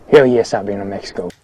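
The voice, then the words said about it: Wyoming accent, vowels far back. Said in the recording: “Gyllenhaal nails his Wyoming accent here. Listen to the vowel in one and once, how it's all the way back in his mouth.”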